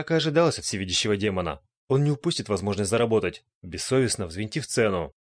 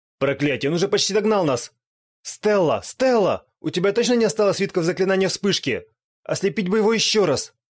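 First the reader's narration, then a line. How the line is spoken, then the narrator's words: Desperate breathless shouting. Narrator (Russian): Отчаянно прокричал на бегу Гил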